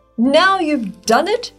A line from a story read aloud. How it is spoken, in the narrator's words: shrieked the fir